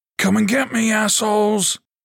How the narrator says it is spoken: Troy bellowed

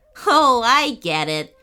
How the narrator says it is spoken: chuckled Little Bro

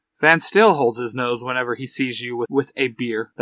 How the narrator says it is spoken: Larry says with a chuckle

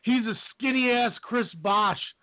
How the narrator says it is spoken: I screamed

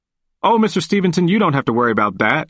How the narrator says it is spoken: quickly replied

